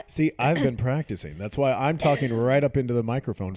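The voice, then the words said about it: Loud, put-on sexy radio voice. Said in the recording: “Loud. I have my sexy voice on. ... You really are loud today. ... talk with a sexy radio voice”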